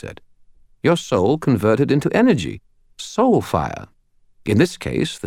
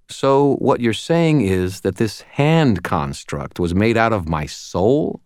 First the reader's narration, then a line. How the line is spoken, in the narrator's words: I said